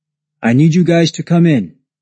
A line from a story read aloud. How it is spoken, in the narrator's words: called out